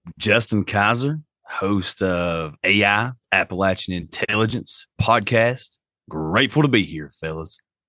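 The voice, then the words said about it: Rich radio-style voice. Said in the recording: “Also the greatest radio voice of the South. ... Listen to that. ... So good.”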